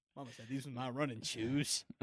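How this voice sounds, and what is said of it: Pretty good Forrest Gump impression. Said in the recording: “It's not a bad impression. It's actually pretty good. It's a pretty good Forrest. It's almost like it comes natural to you.”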